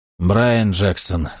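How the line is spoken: Sighing. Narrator (Russian): вздохнул Джексон

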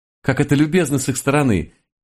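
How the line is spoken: Happy giggle, tiny woman. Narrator (Russian): Счастливо хихикнула крохотная француженка

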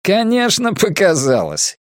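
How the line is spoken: Laughing. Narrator (Russian): Койот рассмеялся

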